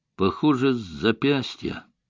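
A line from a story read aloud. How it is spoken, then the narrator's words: Stammering, forced out. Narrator (Russian): С запинкой выдавил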